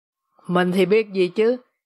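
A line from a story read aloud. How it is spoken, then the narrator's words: Irritated retort. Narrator (Vietnamese): Savarino đáp trả bằng một giọng bực bội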